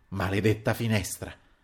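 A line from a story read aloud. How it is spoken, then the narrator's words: Murmur. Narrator (Italian): mormorò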